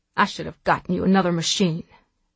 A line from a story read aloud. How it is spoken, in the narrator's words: she said